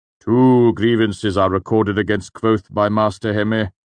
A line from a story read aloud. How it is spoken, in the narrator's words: the Chancellor said sternly